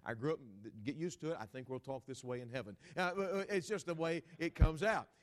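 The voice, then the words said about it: Texan accent. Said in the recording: “I'm a Texan by birth ... if you hear any kind of a sound of my dialect come out a certain way”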